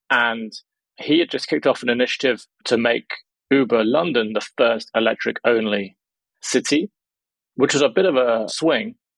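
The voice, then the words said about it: British English accent. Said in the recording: “You might be able to tell from the accent that I'm from the UK”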